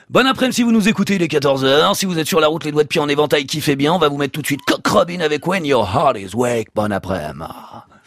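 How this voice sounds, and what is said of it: Old-school FM radio host voice. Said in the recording (French): “vous savez faire l'animateur de la FM à l'ancienne ?”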